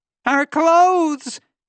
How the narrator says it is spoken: shouted to her children

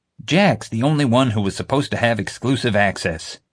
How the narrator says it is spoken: JJ snapped

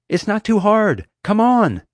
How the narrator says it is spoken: looking hugely relieved, and yelled

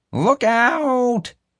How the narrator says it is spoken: Marge howled to the crowd ahead

